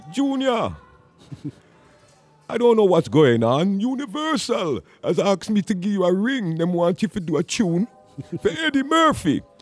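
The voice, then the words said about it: Imitated Trinidadian accent. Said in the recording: “my A&R man who comes from Trinidad. So his accent was like”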